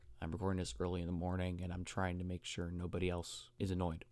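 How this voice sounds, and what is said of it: Slightly dry voice. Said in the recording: “Sorry if my voice is a little dry.”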